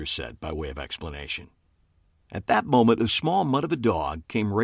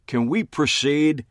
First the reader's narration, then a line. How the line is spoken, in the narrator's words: Homicide Detective Fred Hutton pleaded between sneezes